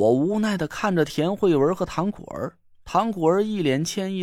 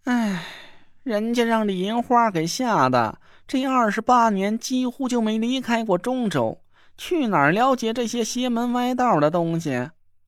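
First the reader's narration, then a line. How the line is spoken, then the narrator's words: Sighing. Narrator (Chinese): 那若兰叹了口气说道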